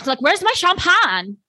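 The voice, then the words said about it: Imitates another person's strange accent. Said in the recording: “The accent is it. ... what is this accent? It's like, it sounds like uncut gems, but worse”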